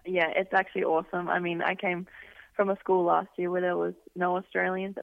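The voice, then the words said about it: Australian accent. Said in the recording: “So you are from Australia. We can tell by the accent.”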